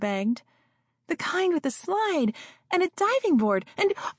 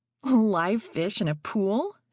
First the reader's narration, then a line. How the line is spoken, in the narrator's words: Freddy said with a laugh